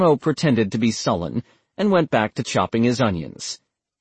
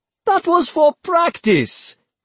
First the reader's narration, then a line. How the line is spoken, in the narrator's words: Copano exclaimed